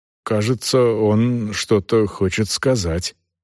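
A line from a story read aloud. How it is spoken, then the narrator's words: Confused mutter. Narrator (Russian): растерянно пробормотал Бинастро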